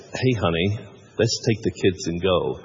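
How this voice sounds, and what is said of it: Poor put-on American accent. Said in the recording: “that's a terrible attempt at an accent.”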